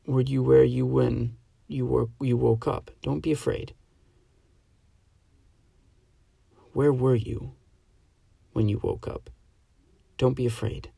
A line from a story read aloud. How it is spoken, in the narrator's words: she spoke quietly